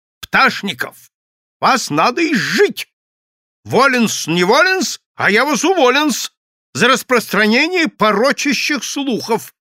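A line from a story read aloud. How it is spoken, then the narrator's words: Angry shout. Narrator (Russian): Иоаннопольский сердито крикнул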